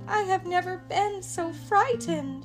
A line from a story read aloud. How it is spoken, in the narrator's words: sobbed Annie